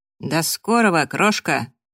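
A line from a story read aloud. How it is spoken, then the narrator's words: Cheerful, through cigarette-clenched teeth. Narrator (Russian): бодро процедил Фрэнк, держа в зубах очередную сигарету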